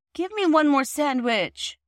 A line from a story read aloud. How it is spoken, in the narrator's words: pleaded Phyllis